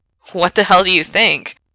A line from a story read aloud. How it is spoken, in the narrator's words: Frank laughs kind of bitterly